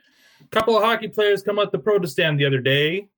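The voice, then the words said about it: Rural hick accent. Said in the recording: “Wayne, 25, plaid shirt, Levi's, hick accent”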